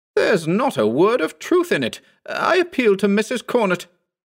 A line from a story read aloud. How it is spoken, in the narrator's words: exclaimed the discomfited Agnes